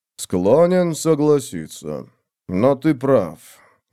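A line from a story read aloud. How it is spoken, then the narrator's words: Sighing. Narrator (Russian): вздохнул он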